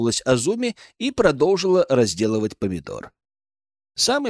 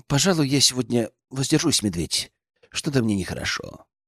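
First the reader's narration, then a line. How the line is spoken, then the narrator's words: Nervous, hesitant. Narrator (Russian): Князь нервно сглотнул, подумал и сказал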